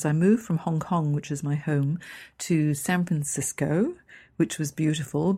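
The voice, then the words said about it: Hong Kong English accent. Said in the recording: “I've got this English accent ... the Hong Kong English or the Hong Kong half English, half Chinese”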